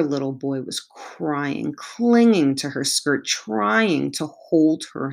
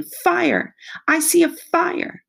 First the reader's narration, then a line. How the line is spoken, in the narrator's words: she nevertheless continued to scream